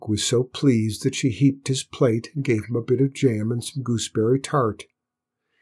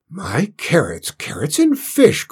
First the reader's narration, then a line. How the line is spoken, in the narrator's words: cried the cook